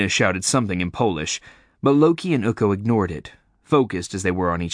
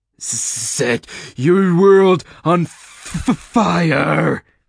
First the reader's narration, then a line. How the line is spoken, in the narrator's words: Loki spat